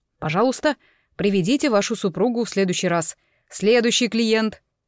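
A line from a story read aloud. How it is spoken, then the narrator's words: Stern. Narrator (Russian): начальник филиала строго произнес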